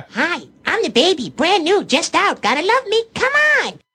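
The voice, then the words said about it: High-pitched Elmo-like character voice. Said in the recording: “that's that voice ... And it's very Elmo-esque.”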